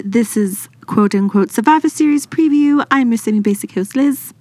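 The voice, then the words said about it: Fake British accent. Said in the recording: “done in a fake British accent ... Hers is almost as good as mine.”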